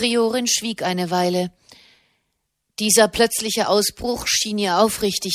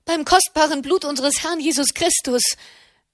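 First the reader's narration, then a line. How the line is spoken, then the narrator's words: Loud cry. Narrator (German): rief sie laut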